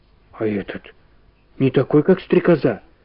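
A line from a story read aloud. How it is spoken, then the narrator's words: Whispered question. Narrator (Russian): спросила шепотом Валя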